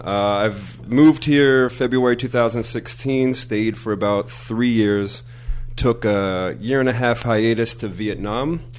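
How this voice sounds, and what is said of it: American East Coast accent. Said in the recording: “I have an East Coast accent to Minnesotan”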